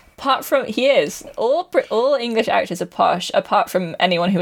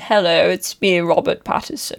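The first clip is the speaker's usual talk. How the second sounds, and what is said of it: Put-on posh English accent. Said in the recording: “I'm the posh boy because all English actors are posh... He's kind of posh.”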